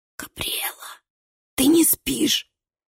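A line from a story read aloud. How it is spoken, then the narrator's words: Whisper through a keyhole. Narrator (Russian): шептал чей-то голос сквозь замочную скважину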